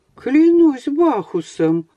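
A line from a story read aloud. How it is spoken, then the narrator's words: Exclamation. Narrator (Russian): воскликнул мажордом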